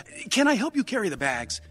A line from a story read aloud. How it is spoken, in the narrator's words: John said eagerly